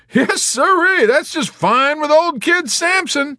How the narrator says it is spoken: he whistled again and shouted over the intercom

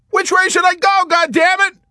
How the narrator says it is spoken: McWatt shouted furiously over the intercom in a suffering, high-pitched voice

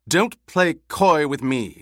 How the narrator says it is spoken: she snapped

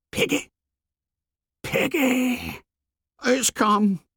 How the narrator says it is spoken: gasped Piggy

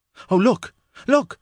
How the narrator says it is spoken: cried Jane

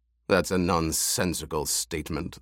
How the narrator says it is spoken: the Baron rumbled

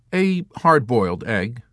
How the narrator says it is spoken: Milo answered

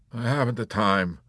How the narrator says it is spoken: Lieutenant Shaiskov would grumble petulantly

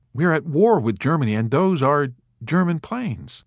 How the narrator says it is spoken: Major Danby interrupted timidly

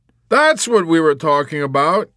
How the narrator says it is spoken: Yossarian cried

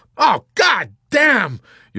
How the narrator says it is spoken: Yossarian exclaimed bitterly

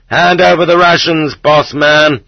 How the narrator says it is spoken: to yells of

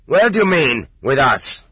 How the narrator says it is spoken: the master sergeant barked at him more loudly than he needed to

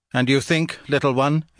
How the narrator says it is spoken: it answered

